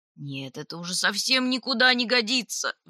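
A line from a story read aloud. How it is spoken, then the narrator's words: Roaring moose. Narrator (Russian): взревел лось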